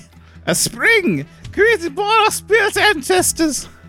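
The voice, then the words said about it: Monty Python woman voice. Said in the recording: “You're doing a Monty Python woman.”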